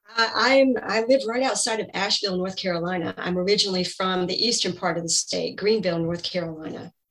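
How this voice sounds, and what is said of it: Southern American accent. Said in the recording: “I love your accent. ... So I'm a Southern girl.”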